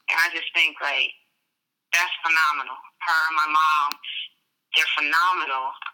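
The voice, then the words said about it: Emotional voice. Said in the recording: “I'm getting emotional. ... I can hear it.”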